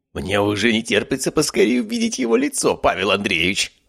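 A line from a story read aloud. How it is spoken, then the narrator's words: Exclaimed. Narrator (Russian): воскликнул Биркин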